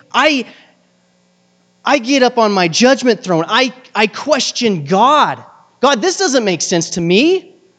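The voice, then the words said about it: Frustrated tone of voice. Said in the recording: “hear the frustration in my voice”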